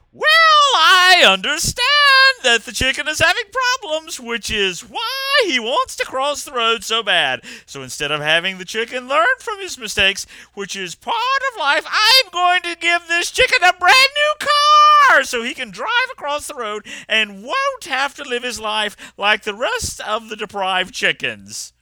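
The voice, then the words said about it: Imitates a talk show host's voice. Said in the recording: “That's my Oprah impression.”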